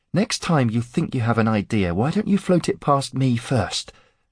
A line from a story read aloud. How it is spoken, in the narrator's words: Aaron said breathlessly